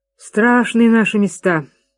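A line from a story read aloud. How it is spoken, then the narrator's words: Sighing. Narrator (Russian): вздохнул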